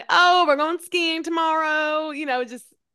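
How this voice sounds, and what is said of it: Poor put-on Southern accent. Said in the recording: “kind of a shitty Southern accent”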